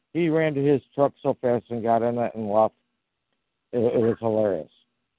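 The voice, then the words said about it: Southern American accent. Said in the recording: “the gentleman's name with the southern accent”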